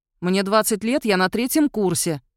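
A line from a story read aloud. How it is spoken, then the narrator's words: Offended announcement. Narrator (Russian): обиженно известил Миран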